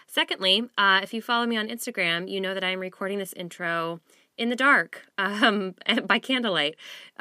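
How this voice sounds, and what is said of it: Sick-sounding, slightly rough voice. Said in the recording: “I have a bit of a cold, so I apologize for my voice ... I'm just a little bit under the weather, and I sound maybe a little gross”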